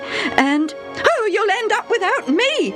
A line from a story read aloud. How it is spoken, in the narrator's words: his mother shrieked